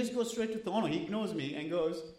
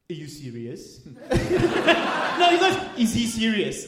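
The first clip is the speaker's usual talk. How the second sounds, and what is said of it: Imitates a waiter's French accent. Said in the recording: “That's a great French accent. ... That's a really good French accent. ... It's almost Borat.”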